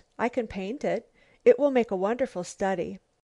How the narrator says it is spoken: she exclaimed at last

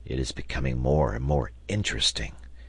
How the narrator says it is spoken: murmured Gideon Spilett in the sailor's ear

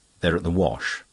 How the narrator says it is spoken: Denis replied rather curtly

